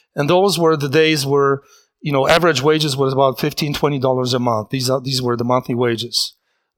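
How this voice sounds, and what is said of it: Polish accent. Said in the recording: “a person speaking with a strange accent, Polish accent”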